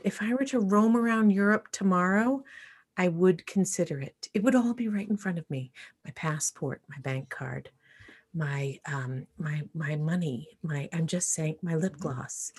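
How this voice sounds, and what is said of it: Whispering, hard to hear. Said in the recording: “It's hard to hear. ... It's hard to hear. ... That's why I'm whispering.”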